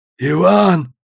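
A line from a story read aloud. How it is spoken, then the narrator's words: Hoarse wheeze. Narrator (Russian): захрипел он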